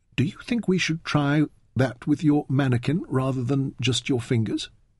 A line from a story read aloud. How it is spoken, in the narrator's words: Fenn suggested timidly